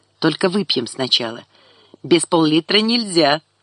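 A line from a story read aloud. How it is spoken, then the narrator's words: Laughing. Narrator (Russian): засмеялась она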